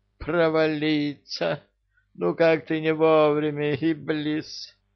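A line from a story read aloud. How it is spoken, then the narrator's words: Groaned. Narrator (Russian): простонал король джиннов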